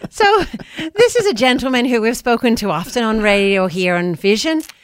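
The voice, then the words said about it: Put-on Irish accent. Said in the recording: “I'm going to start using my accent for this one ... my Irish accent ... pretty good, actually”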